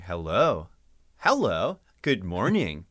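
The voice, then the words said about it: Sing-song surfer-style greeting. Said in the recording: “a lot of people's impression of me definitely barks up that tree of like dumb surfer kind of sound ... it's in that sing song ... do an impression of somebody doing the impression of you”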